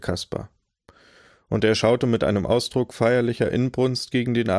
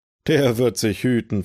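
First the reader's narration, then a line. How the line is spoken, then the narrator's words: Gruff laughing retort. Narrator (German): versetzte Hill, bärbeißig lachend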